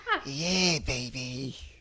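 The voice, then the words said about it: Austin Powers impression. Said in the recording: “Everyone in here doing an Austin Powers impression.”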